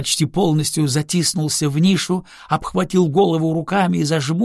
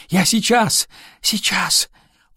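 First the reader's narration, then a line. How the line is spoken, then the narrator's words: Whispered shouting. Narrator (Russian): выкрикивая шепотом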